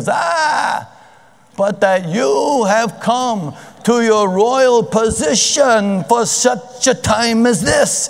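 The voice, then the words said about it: Impression of a rabbi's voice. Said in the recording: “my Mordecai impersonation? ... I've known enough rabbis.”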